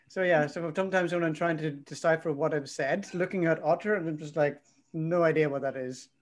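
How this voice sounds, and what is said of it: French accent in English. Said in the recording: “It doesn't understand my accent. ... It's the French accent.”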